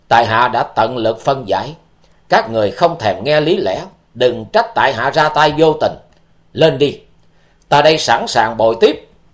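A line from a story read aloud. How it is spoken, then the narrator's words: Cold, murderous. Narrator (Vietnamese): chàng lạnh lùng nói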